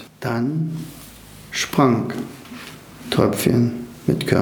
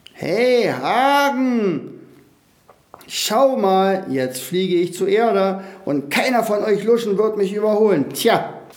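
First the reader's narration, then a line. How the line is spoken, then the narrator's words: Shouting as loud as possible. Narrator (German): Der aber schrie, so laut er nur konnte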